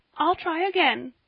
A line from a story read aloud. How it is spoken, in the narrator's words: said poor Polly, choking back her sobs